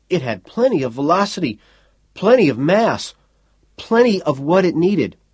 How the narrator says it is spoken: the technician said shakily

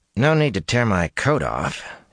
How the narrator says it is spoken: he growled

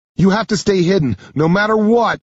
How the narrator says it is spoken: yell over the storm

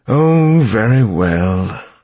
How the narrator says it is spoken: the suited man said with a sigh

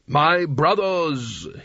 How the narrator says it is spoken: he intoned

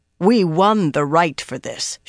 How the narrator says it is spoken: she growled

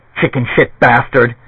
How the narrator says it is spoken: Jerry said, panting with pain

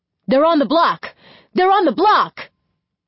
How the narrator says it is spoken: One of their neighbors yelling the whole way

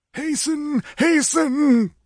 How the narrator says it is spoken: groaned Tecotl

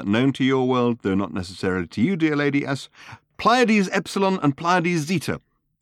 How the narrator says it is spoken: concluded Ford triumphantly

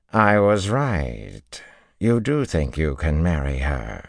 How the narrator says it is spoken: she drawled

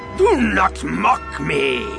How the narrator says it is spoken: Yeoman Carr roared

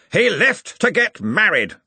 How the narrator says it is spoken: snapped Ridcully

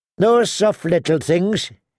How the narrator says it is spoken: he called out

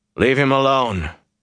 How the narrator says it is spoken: said, more roughly than he intended

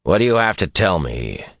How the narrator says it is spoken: said, more roughly than he intended

